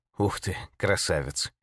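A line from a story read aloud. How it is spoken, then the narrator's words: Admiring breathy exclamation. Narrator (Russian): выдохнул человек восхищенно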